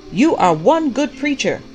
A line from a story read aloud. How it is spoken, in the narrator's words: the prophet shouted back